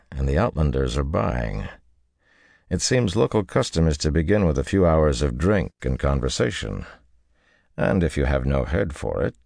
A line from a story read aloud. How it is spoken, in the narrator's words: added dryly